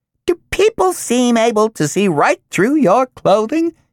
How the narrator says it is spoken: it squeaked at them, bat-like

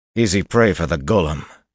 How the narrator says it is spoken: he said bitterly

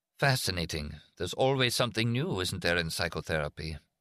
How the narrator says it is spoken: Wearily, Steiner said

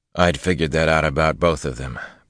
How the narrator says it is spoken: Perrin muttered

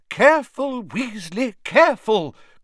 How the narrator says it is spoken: cried Professor Sprout

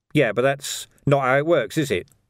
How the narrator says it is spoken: said Vimes

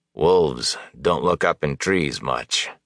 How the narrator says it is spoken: Elias growled

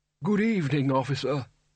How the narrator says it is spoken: its wearer croaked

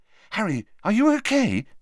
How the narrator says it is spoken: she added anxiously

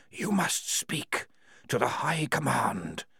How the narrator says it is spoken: whispered the walls

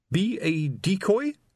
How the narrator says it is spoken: quavered

